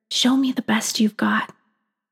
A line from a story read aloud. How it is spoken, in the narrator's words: My body succumbs to the seduction, and I whisper